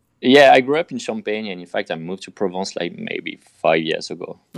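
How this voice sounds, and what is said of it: French accent. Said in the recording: “You can tell by the accent. ... the French accent. I don't know if I have the Provence accent, but for sure I have the French one.”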